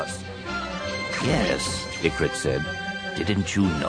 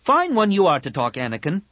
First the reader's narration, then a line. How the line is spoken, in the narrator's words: Tahiri snapped